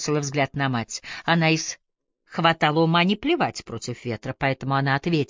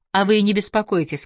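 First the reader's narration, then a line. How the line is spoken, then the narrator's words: Plain. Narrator (Russian): сказала Рут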